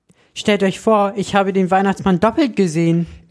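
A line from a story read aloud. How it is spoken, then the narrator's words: Excited telling. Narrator (German): erzählte ich ihnen gleich aufgeregt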